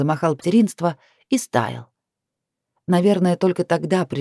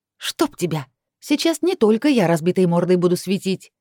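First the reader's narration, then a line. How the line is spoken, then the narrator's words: Threatening. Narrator (Russian): пригрозила ему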